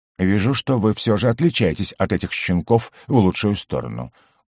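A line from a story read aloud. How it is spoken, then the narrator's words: Satisfied grumble. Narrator (Russian): удовлетворенно буркнул Оро Габсбург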